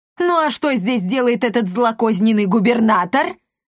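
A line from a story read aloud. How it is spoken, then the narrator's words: Shouted. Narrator (Russian): крикнул торговец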